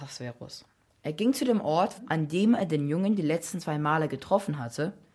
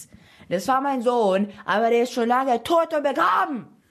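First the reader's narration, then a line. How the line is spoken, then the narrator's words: Woman shouting. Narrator (German): schrie die Frau den Slaven an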